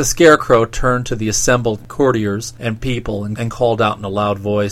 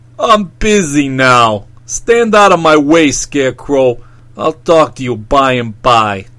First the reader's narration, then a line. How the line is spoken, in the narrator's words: he gave a harsh, wicked laugh of derision and said